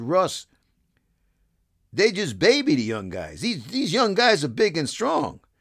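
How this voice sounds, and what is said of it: Imitated Louisiana accent. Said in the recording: “he goes in his Louisiana accent”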